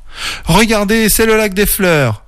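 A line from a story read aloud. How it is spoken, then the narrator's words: Shouting. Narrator (French): cria Camille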